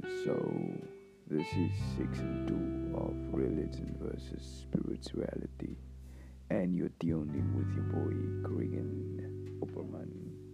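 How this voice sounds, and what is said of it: Unusual, altered-sounding voice. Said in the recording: “I'm back with my weird voice.”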